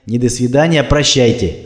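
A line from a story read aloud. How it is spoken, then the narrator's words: Stern reply. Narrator (Russian): строго ответил Татьянин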